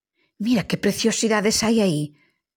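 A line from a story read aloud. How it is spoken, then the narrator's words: Exclaimed. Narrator (Galician): exclamou Lola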